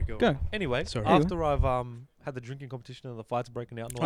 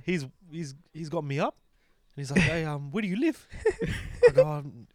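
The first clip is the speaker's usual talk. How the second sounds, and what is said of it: Put-on Kiwi accent. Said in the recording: “I love how you got the Kiwi accent, because he was more Kiwi.”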